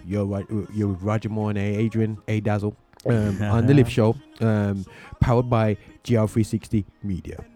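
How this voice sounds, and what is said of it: Deep put-on announcer voice. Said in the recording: “get that deep voice going on”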